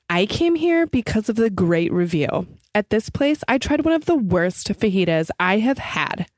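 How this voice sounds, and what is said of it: Funny put-on reading voice. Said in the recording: “Bad Reviews Read in a Funny Voice”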